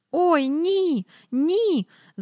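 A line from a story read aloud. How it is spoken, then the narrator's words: Squeal. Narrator (Ukrainian): запищала Джейн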